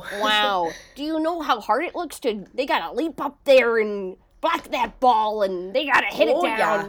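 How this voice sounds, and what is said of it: Put-on Wisconsin accent. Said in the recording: “Let me do a good Wisconsin accent to this. ... You got to do the A and the O.”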